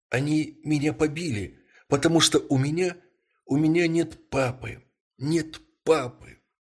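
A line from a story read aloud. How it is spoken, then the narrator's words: Tearful trembling boy. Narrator (Russian): Мальчик со слезами на глазах ответил дрожащим голосом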